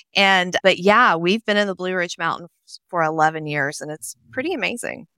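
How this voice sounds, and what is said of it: Nashville, Tennessee Southern accent. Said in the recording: “I grew up in Nashville, Tennessee, which you can probably tell from my accent.”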